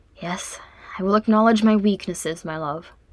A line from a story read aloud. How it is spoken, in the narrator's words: he murmured eventually